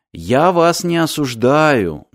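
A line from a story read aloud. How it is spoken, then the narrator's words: Soft gentle speech. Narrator (Russian): мягко сказал Мартин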